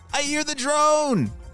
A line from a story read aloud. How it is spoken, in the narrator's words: he shouted